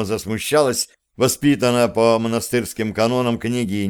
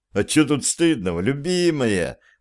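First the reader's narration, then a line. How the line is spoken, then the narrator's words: Laughing. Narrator (Russian): засмеялся Андрей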